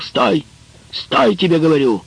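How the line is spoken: Shouted. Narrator (Russian): Гюндюс Керембейли крикнул

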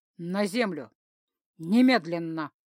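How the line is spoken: Confirming, sighing. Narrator (Russian): подтвердила Арран и почему-то вздохнула

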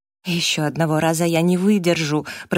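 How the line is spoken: Groaned. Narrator (Russian): простонал Джастин

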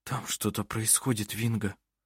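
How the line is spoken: Frightened pale-lipped whisper. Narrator (Russian): прошептал Хейки побледневшими губами

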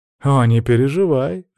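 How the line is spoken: Laughing. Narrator (Russian): рассмеялся Кол

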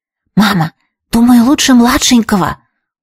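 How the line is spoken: Whisper. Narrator (Russian): услышала я шепот

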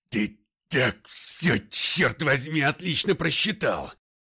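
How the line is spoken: Growl. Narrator (Russian): прорычал Макгрей

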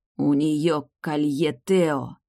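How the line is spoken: Loud whisper. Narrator (Russian): громко прошептал

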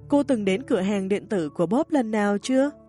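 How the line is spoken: Smiling, enthusiastic. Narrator (Vietnamese): anh ấy mỉm cười và tiếp tục nói một cách nhiệt tình

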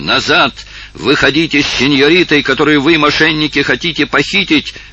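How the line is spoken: Shouting. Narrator (Russian): закричал

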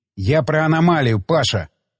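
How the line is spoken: Angry growl. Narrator (Russian): Зло рыкнул Полукров

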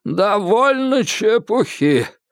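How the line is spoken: Hoarse. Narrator (Russian): хрипло проговорил он

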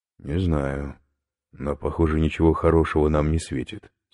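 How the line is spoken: Plain. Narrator (Russian): сказал Иван

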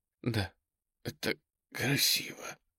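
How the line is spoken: Tearful, forced out. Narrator (Russian): выдавила она из себя со слезами на глазах

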